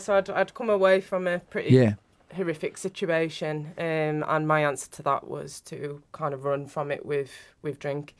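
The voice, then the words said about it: Northern English accent. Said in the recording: “I'm not from around here, you can tell with my accent. ... No, Northern.”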